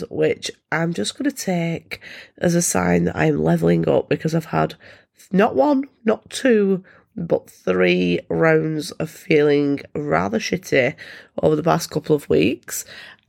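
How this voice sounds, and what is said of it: Voice affected by illness. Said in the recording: “excuse my voice ... I am once again recovering from the latest bout of germs”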